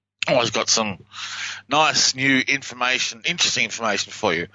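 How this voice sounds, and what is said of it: Speaks with a noticeable accent. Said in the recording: “I hope you can understand my accent”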